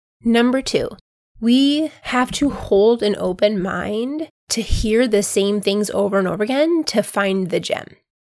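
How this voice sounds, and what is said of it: Congested voice. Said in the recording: “you can hear it in my voice. I'm still trying to get over this sinus infection.”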